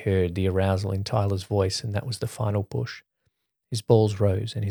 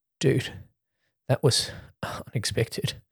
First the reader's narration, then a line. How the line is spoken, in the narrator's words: Jake said between panting breaths